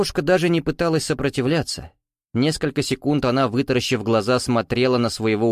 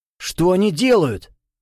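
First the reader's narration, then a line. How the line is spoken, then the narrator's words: Horrified exclamation. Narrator (Russian): в ужасе воскликнул граф, никому не обращаясь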